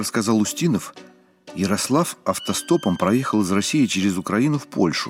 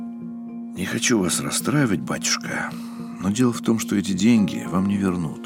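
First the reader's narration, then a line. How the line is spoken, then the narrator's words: Sighing. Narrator (Russian): вздохнул Устинов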